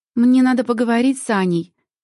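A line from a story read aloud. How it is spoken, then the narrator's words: Loud. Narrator (Russian): громко произносит Леся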